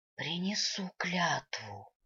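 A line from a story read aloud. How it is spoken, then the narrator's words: Breathed out. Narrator (Russian): выдохнула демоница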